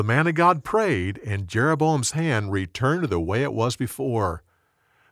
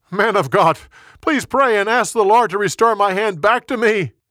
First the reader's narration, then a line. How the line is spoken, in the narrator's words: He yelled again